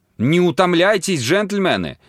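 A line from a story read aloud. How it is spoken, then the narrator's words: Shouting, breaking into laughter. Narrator (Russian): закричала миссис Тьюли, вдруг начав смеяться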